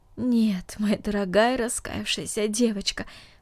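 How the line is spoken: Aunt, tender. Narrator (Russian): сказала тетя, нежно целуя ее

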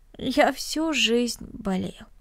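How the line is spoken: Sad smiling. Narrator (Russian): печально улыбнулся Денис

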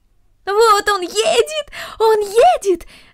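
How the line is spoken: Shouting. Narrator (Russian): закричала Корнелли

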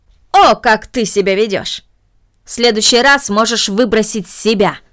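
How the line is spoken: Angry. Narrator (Russian): произнесла мисс Мина, сердито

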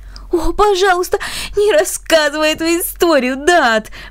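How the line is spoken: Embarrassed pleading. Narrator (Russian): взмолился Бернард с покрасневшими щеками

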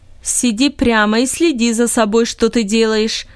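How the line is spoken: Father's sharp scolding. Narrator (Russian): прикрикнул на него отец

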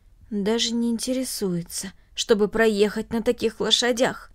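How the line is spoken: Low undertone. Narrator (Russian): добавил вполголоса

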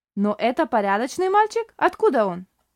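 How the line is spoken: Stern question. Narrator (Russian): строго спросила Шарлотта

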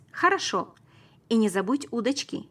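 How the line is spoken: Shouting while running. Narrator (Russian): крикнул я на бегу

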